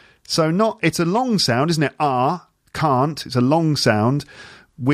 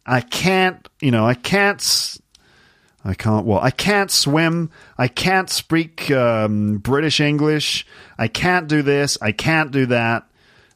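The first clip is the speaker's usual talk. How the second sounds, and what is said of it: Put-on American accent. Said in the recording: “That's it with an American accent.”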